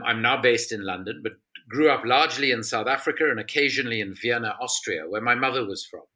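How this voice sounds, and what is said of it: South African accent. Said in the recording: “I'm South African, as most people can probably hear from my accent”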